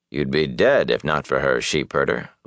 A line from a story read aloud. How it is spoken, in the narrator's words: Lan said flatly